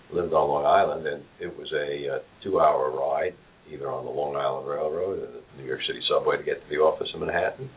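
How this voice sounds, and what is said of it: New York City accent. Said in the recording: “I grew up in New York City, if you can't tell from my accent.”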